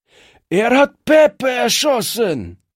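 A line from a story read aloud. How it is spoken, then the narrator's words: Thug screaming. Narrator (German): schrie einer der Strolche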